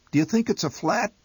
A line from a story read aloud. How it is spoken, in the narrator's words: my mother chirped helplessly